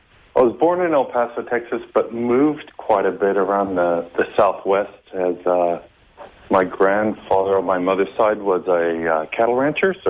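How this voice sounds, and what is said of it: West Texas American accent. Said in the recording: “I love the accent. ... I'm originally from El Paso, Texas. That's kind of West Texas”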